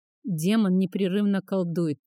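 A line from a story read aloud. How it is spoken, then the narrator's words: Very quiet, barely audible. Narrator (Russian): тихо сказал Састион, и Фарах едва расслышал его слова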